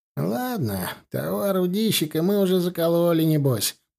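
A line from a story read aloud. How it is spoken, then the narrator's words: Grumbling. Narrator (Russian): проворчал Савелий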